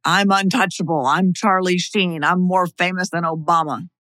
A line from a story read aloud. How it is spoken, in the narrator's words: he screamed